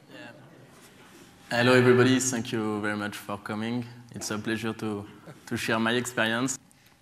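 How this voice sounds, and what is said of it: English with French accent. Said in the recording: “an extremely romantic English accent with French touch”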